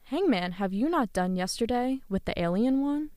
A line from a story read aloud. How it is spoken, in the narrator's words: we cried